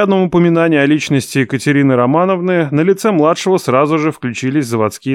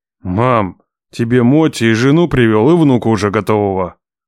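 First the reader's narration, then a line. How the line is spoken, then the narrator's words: Growl. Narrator (Russian): прорычал я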